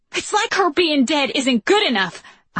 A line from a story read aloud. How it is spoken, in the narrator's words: I yell